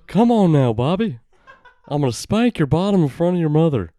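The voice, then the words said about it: Stern cartoon dad voice. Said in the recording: “that's the dad voice ... King of the Hill voice ... That's my dad voice. That's my dad voice.”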